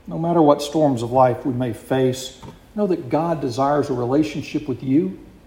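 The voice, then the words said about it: Deep South US accent. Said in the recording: “If I haven't picked up from the accent, I am from the deep south ... that close to New Orleans and South Louisiana”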